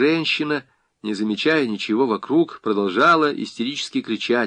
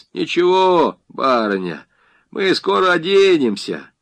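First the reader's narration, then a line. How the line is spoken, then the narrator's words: Mocking. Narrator (Russian): Кто-то насмешливо произнес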